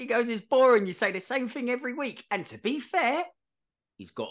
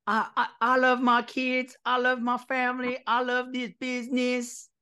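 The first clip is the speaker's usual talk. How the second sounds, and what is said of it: Imitates another person's voice. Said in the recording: “done a very very good impression of him”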